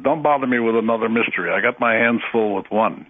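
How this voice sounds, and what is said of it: Impression of Stanton Friedman. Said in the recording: “that's a pretty good impression of Stanton. That's exactly the way he sounds.”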